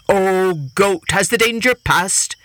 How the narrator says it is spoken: the tiger called out

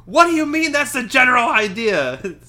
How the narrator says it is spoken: Weasley scream

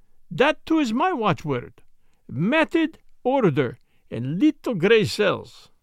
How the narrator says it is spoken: cried the other

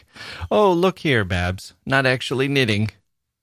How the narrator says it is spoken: a voice as fresh laughed back

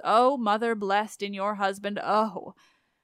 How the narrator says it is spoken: at last she groans

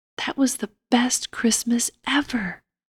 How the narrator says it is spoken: Ashantine murmured happily

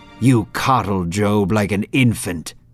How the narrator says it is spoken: Satan snapped

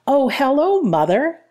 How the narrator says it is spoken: exclaimed

